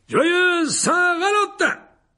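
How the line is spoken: Exclaiming. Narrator (French): s'écria Lockhart

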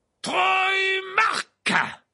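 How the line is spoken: Roared. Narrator (French): rugit Verplay

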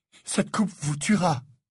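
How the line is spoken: Panting. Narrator (French): dit Harry haletant

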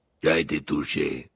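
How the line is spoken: Growl. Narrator (French): grogna Maugrey

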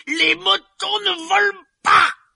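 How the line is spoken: Yelled. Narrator (French): hurla-t-il

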